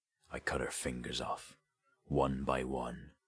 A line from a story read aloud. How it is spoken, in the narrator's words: Sketch said, his voice dropping to a hoarse whisper